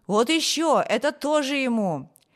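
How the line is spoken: Shouting. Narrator (Russian): кричали

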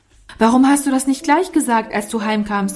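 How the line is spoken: Vehement shout. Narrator (German): rief Norman heftig

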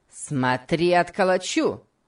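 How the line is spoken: Angry shout. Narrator (Russian): крикнул Сэмбо, топнув ногой

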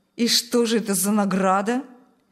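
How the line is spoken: Ironic snort. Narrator (Russian): Снова иронично хмыкнул Шталь

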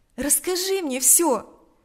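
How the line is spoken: Compassionate exclamation. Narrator (Russian): воскликнула она в порыве сострадания

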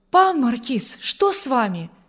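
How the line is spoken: Frightened exclamation. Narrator (Russian): воскликнул Урзин испуганно

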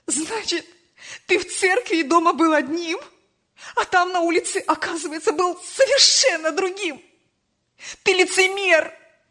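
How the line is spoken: Mother shouting through tears. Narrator (Russian): Сквозь слезы кричала мать

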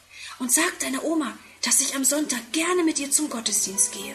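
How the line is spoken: Whispered. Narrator (German): flüstert

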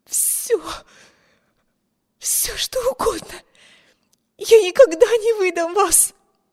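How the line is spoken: Desperate breathless plea. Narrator (Russian): Выдохнула, хватаясь с жадностью утопающего за надежду на спасение

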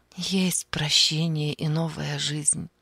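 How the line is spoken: Soft. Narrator (Russian): мягко сказала она

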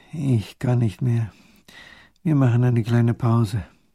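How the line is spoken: Exhausted groan, young boy. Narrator (German): der kleine Großherzog stöhnt

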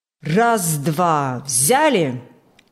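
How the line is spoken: Loud, measured command. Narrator (Russian): Громко и размеренно командовал бригадир Иван Фокт

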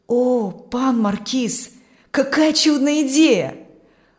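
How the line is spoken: Delighted exclamation. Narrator (Russian): воскликнул Аурелий восторженно

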